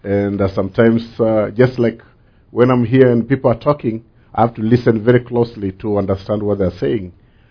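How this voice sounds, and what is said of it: Different, non-native accent. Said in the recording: “I know my accent is different”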